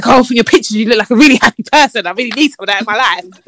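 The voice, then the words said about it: Imitates another person's voice. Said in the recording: “why are you doing that voice? Why are you doing that voice?”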